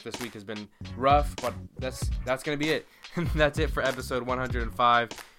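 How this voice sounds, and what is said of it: Worn-out, strained voice. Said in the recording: “My voice is toast.”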